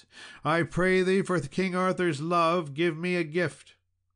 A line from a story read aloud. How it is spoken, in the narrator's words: a damsel cried out to Sir Tor with a loud voice